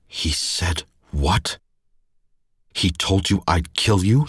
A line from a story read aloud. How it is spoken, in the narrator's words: He snarled the words